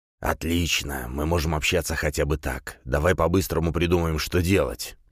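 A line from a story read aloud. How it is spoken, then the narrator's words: Lizard's hiss. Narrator (Russian): прошипел ящер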